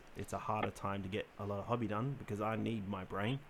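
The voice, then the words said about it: Congested, sick-sounding voice. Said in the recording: “cold and flu season ... you may hear it in my voice ... my sinuses”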